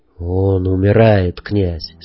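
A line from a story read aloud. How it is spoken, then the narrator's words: Serious and sad. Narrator (Russian): серьезно и печально сказал Ясо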